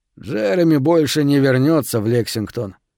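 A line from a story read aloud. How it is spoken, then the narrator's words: Dejected. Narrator (Russian): уныло сказал Кейси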